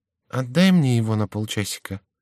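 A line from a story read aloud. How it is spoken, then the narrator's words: Whisper in ear. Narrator (Russian): шепнул Шико на ухо королю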